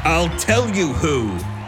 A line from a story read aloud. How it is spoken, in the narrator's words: Stanley roared